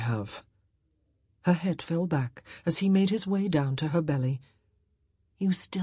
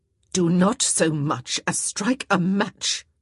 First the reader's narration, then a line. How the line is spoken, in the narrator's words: Violet had growled